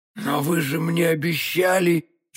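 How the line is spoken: Barely audible miserable babble. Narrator (Russian): чуть слышно пролепетал несчастный галантерейщик

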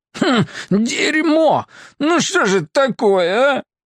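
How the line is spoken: Near sob. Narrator (Russian): почти всхлипнул Симбирцев

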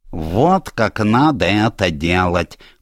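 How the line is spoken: Nasty squeak. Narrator (Russian): Противно пропищала Джуди

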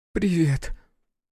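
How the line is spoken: Tearful desperate whisper. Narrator (Russian): сквозь слезы прошептала Эрна, сходя с ума от невозможности прикоснуться к руке самого главного для нее человека

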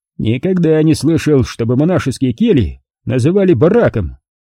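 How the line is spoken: Loud cheerful guffaw. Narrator (Russian): Весело и привольно заржал Ефимов

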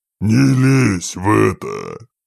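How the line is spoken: Cold low demon growl. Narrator (Russian): рыкнул демон, не повышая тональности, но вкладывая в голос холод

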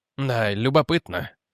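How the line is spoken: Mutter. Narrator (Russian): пробормотал Реджи Форчун

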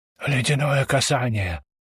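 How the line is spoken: Whispered. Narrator (Russian): прошептал Вальтер

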